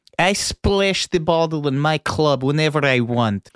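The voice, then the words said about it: Exaggerated bad Russian accent. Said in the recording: “Malkovich is Russian in that movie. Famously awful.”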